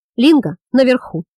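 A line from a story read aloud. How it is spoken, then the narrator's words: Shouting. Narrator (Russian): крикнул след Хейграст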